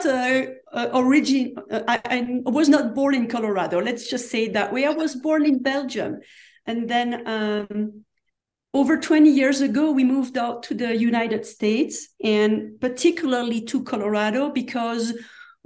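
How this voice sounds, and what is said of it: Non-American foreign accent. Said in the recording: “You obviously don't have an American accent”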